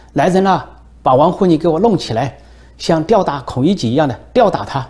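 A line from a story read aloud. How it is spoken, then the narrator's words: Loud shout. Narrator (Chinese): 习近平一声大喊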